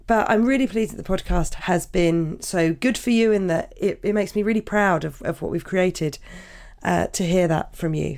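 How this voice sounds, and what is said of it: Croaky voice. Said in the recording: “how croaky my voice is”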